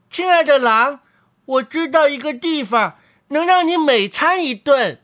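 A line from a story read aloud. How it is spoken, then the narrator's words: Muffled call from inside. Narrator (Chinese): 于是他在狼肚子里叫道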